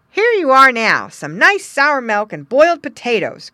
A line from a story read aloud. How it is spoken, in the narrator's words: cried the boy